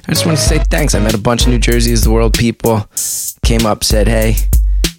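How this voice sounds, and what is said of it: Hoarse, blown-out voice. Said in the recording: “You can hear that my voice is a little blown out.”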